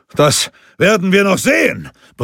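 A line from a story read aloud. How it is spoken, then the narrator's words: Roaring. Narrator (German): brüllte er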